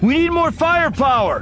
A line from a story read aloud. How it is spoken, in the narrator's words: Anakin shouted